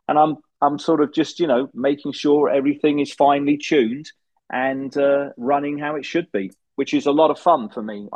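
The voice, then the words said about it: British accent. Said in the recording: “You're both Brits ... You talk with a British accent.”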